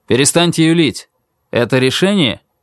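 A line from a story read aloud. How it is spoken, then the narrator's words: Barked. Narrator (Russian): Он выждал секунду, затем гаркнул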